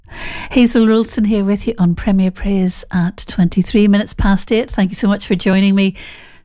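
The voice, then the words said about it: Irish accent. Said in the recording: “quite a tricky word for me to say with an Irish accent”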